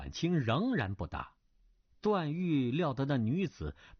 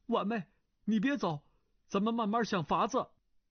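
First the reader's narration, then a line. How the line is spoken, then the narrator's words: Calling out. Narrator (Chinese): 段誉语塞，叫道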